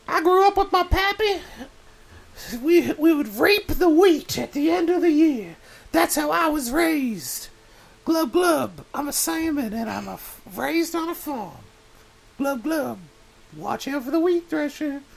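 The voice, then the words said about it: Comic voice of a talking salmon. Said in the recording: “my impression of a farm-raised salmon”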